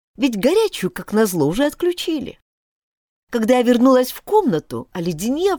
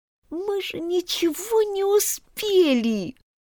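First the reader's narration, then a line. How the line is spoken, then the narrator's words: Whimpering. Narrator (Russian): прохныкала я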